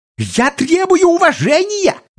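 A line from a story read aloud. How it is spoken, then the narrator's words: Shrill squeal. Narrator (Russian): взвизгнул Жака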